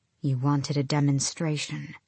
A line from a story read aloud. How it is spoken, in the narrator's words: Selena said quietly